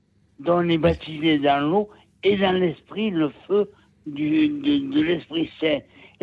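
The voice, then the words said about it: Southern French regional accent. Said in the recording (French): “c'est ... avec ah, l'accent ... C'est ... de Nîmes, ... avec l'accent ... Avec l'accent.”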